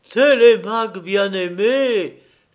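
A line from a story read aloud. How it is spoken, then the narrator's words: Crying out, weeping. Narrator (French): cria-t-il en pleurant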